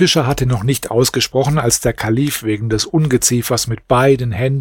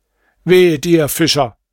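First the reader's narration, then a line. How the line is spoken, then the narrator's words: Exclaiming. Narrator (German): rief er aus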